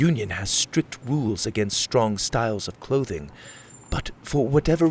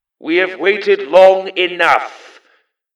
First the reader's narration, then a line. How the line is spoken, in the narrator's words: shouted a voice in the plaza